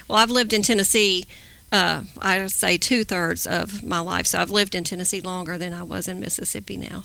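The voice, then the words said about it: Southern American accent. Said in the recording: “You do have a Southern accent”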